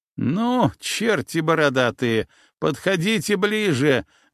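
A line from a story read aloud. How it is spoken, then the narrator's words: Loud laughter. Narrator (Russian): громко рассмеялся Паша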